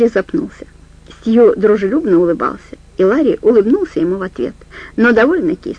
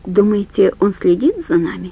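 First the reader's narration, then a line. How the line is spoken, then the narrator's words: Quiet. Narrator (Russian): сказал Ларри тихо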